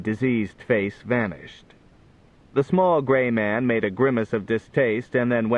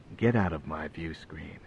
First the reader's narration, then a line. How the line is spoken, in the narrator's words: All he said, and in a quiet voice, was